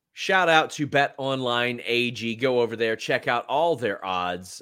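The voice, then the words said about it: Southern Kentucky American accent. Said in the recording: “Mine is Southern Kentucky.”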